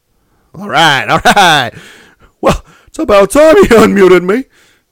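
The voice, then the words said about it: Silly put-on voice. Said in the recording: “I thought you were going to use your regular voice there for a second, but you're going back to your silly voice.”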